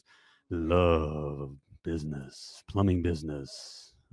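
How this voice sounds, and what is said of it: Deep voice impression. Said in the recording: “who's the guy with the deep voice?”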